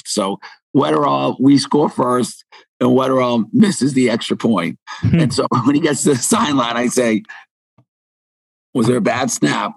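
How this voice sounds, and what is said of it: Raspy voice. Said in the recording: “my voice is raspy”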